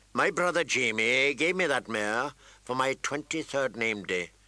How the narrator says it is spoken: Tyrion said in a flat voice

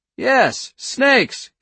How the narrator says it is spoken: Cap fairly screamed

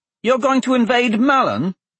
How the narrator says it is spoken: Dante blurted

